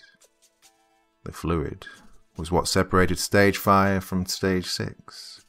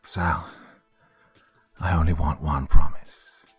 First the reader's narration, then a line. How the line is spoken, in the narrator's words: he said into the phone, keeping his voice steady to avoid alarming her